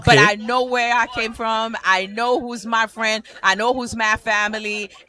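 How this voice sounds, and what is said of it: Haitian accent. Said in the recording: “I hear a dialect. Is this Haitian? ... I am hearing the dialect, ... The parlez-vous.”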